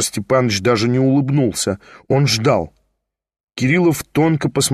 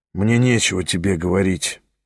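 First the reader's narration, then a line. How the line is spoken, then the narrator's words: Muttered. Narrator (Russian): пробормотал Кириллов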